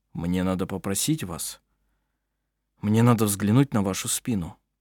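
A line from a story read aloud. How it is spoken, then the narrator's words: Slightly hesitant. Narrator (Russian): произнес он немного неуверенно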